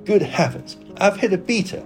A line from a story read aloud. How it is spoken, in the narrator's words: exclaimed Sir Geoffrey